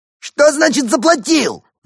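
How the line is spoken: Shrieked. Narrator (Russian): взвизгнул бармен

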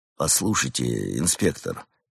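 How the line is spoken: Quiet. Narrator (Russian): негромко произнес амбразур

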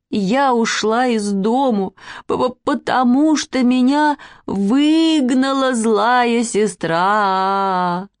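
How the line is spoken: Angry plaintive sobbing. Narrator (Russian): Маня, очень сердитая на Катю, жалобно всхлипывая, сказала

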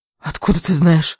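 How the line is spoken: Breathless. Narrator (Russian): выдохнула она

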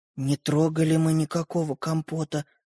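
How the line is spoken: Whispered. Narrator (Russian): прошептал Родька

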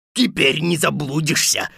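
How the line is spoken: Guffawing wolf. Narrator (Russian): захохотал волк

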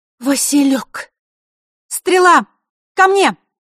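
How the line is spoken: Sudden loud shout. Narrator (Russian): Неожиданно и громко выкрикнула Василиса

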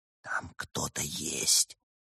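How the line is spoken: Frightened whisper. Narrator (Russian): испуганно прошептала она

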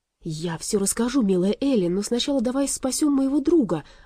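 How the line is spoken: Exclaimed. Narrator (Russian): воскликнул Аларм

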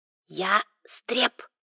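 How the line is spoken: Mysterious whisper. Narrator (Russian): произнес таинственным шепотом

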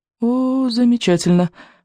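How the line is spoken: Inner groan. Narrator (Russian): мысленно простонал Икинг

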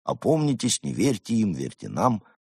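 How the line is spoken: Gloomy muttering. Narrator (Russian): Мрачные сверхобезьянцы уныло бормоча

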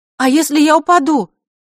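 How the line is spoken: Desperate shout. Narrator (Russian): в отчаянии крикнула она

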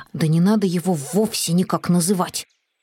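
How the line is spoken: Grumbling. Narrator (Russian): проворчал Финдус

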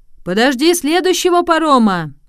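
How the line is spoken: Shouting sailor. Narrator (Russian): крикнул ему один моряк

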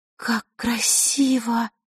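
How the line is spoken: Breathed out. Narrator (Russian): выдохнула Василиса

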